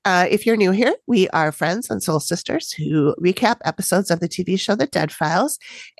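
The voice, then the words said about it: Congested voice from a cold. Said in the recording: “I have a cold, so I'm going to sound a little weird.”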